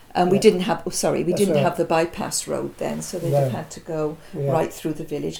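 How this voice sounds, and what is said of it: Monmouthshire accent, Bristol and Welsh touches. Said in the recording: “My accent, people have often been puzzled by it, because it's got a touch of Bristol, a touch of Gloucester, and a touch of Welsh. ... So it's probably just a Monmouthshire accent.”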